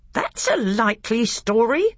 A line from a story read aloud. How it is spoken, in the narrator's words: growled Knickerbrick